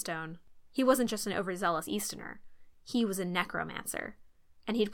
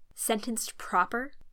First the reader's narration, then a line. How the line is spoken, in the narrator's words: Haru asked through clenched teeth